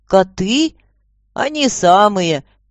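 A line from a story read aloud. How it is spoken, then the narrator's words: Cheerful reply. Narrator (Russian): весело ответил Кинафт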